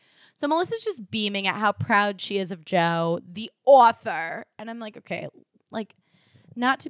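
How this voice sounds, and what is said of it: Usual voice. Nothing is said of it.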